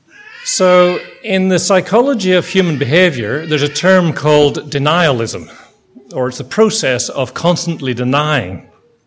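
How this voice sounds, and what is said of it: Speaks with a noticeable accent. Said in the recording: “it might help you understand my accent.”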